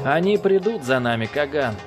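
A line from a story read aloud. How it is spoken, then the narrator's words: Plain. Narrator (Russian): сказал Цинь-Са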